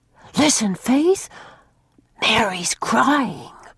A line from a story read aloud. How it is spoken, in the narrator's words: she whispered